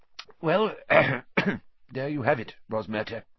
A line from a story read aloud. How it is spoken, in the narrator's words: said Fudge thickly